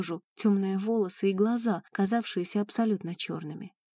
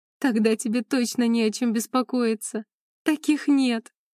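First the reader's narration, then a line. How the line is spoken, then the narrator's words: Laughing. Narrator (Russian): рассмеялась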